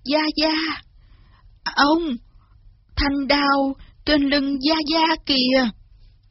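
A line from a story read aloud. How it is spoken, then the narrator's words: Trembling. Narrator (Vietnamese): Lý Văn Tú run run nói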